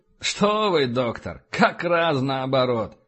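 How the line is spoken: Laughing. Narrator (Russian): рассмеялся Эссекс

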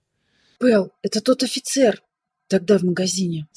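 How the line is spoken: Weak whisper. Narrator (Russian): слабо прошептала Пола

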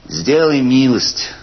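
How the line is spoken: Plain. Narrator (Russian): сказал Ивлев

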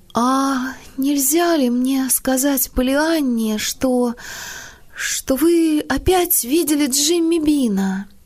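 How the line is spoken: Timid, hesitant question. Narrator (Russian): нерешительно задержалась, обернулась и спросила робко

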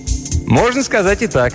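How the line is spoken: Cheerful reply. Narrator (Russian): весело ответил Мелдон

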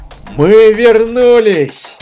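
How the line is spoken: Full-throated yell. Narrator (Russian): во все горло закричал Стоун

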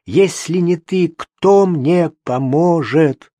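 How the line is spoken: Desperate grown-up shout. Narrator (Russian): отчаянно, по-взрослому, закричала Жене

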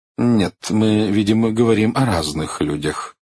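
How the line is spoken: Cold reply. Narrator (Russian): холодно ответил Бейтман

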